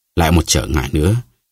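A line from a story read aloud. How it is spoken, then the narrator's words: Pained muttering. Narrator (Vietnamese): bà Bonacieux lẩm bẩm một cách đau đớn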